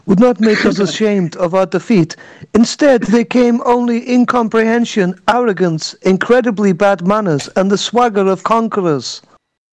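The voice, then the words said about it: Put-on Slavic accent. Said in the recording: “Don't ask me why it's a Slav accent.”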